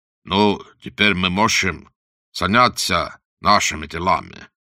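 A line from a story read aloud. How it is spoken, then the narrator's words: Plain. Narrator (Russian): сказал Вандер Келлен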